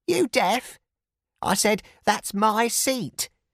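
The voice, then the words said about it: Screeching elderly Cockney woman's voice. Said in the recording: “she screeched in her Cockney accent.”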